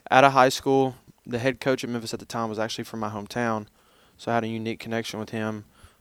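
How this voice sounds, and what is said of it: Southern American accent. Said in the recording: “definitely a Southern accent ... they might detect a Southern accent”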